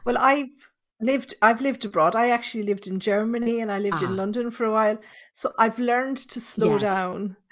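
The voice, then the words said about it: Irish accent. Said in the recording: “coming to us from Ireland, from Tipperary ... See that accent? I wasn't joking. I'm hoping I can understand.”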